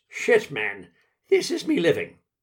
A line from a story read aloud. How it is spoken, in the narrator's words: snorts